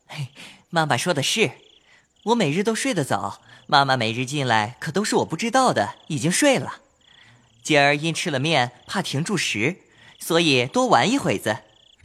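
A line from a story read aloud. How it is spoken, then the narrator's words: Hurried, laughing. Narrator (Chinese): 说毕又笑，宝玉忙笑道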